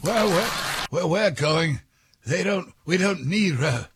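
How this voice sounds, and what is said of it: Doc Brown impression. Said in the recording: “do the voice ... Dr. Brown”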